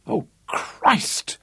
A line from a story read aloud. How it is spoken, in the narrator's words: gasped in horror